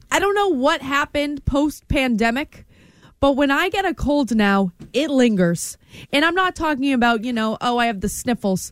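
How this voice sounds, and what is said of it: Congested, hoarse voice. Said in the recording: “I have had this cold that you can hear in my voice for over a week now ... I got the tickle in my throat.”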